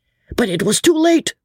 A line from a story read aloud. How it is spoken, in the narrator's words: shouted the crowd excitedly